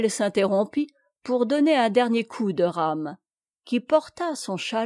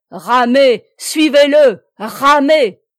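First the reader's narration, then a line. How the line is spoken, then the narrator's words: Shout. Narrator (French): cria Plélan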